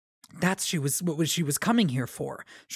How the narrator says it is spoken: Shallan whispered

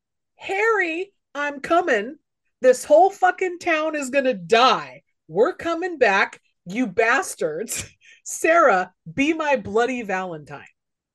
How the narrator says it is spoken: Axel yells

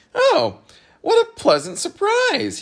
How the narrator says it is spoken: cried happily

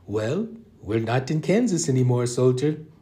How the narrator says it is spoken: Patil laughed

